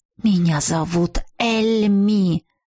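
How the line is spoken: Through gritted teeth. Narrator (Russian): Процедила некромантка

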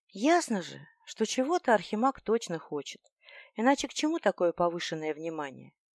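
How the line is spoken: Quiet, deeply heartfelt. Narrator (Russian): лорд Армейд негромко, но очень проникновенно уточнил

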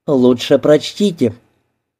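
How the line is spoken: Whispered. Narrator (Russian): Софи, которая шепнула

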